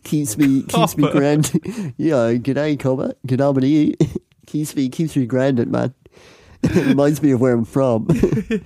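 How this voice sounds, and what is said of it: Put-on Australian accent. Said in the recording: “Such a bizarre like a reference point for an Australian accent.”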